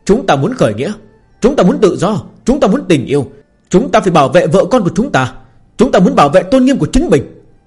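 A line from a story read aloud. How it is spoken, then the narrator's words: Angry roaring crowd. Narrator (Vietnamese): những thành viên quân khởi nghĩa dần dần bị Lâm Phàm cảm hóa, gợi lên sự bất mãn ở trong lòng, sau đó tức giận gầm thét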